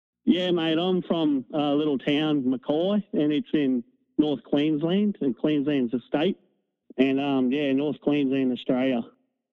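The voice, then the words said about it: Australian accent. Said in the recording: “With that accent, who the hell else talks like that? ... can't take that accent, right?”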